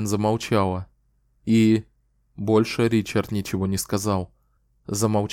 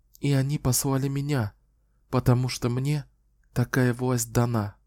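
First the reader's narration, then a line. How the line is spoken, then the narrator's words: Barely audible whisper. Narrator (Russian): еле слышно прошептала Кэлен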